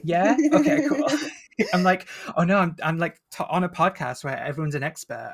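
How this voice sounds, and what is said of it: Northern English accent. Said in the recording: “my northern accent ... You're speaking with an English accent”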